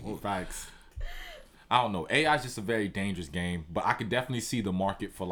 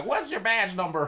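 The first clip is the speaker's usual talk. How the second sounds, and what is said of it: Entitled complaining Karen voice. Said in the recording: “my best Karen impression”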